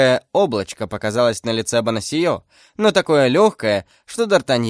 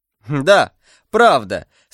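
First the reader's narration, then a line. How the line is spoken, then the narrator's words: Laughing, young man. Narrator (Russian): смеясь, отвечал молодой человек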